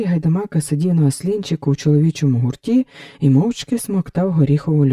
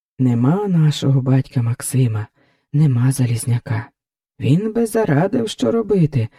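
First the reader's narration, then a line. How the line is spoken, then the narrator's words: Heavy sigh. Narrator (Ukrainian): важко зітхнув Осика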